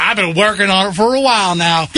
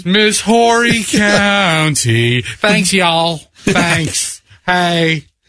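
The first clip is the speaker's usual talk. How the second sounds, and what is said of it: Put-on Southern pageant accent. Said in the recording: “with a southern accent, a South Carolina accent”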